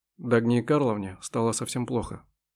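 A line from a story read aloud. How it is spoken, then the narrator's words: Gloomy. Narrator (Russian): мрачно сообщил он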